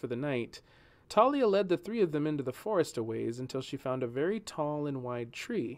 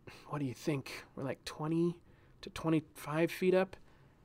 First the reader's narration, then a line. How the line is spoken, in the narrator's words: he whispered to Julian